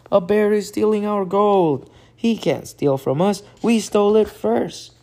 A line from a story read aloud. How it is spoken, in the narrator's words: Hank shouted